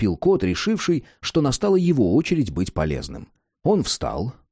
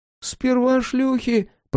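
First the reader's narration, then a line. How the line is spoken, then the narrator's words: Squeaky. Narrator (Russian): пропищал Бэмби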